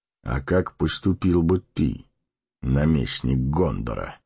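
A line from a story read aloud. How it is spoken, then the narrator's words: Calm question. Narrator (Russian): спокойно спросил Гэндальф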